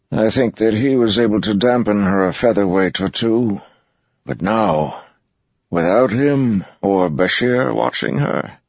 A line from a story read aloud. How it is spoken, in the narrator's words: he sighed